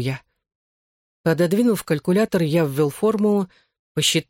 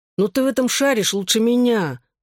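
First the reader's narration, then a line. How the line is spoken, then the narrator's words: Groaning. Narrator (Russian): застонал он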